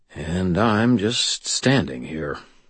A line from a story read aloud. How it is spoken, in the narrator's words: I muttered